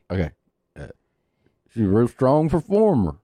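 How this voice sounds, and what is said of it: Imitates another person's accent. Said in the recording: “Say it like Yoshi ... That is not how he talks. Do it like Yoshi ... That's not his accent.”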